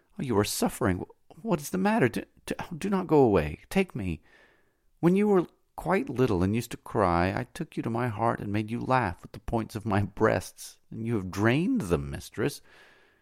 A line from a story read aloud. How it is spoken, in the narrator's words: The slave exclaimed